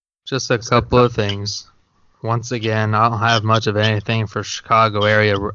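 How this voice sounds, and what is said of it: Gloomy, mopey monotone voice. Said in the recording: “you sound like a fucking Eeyore”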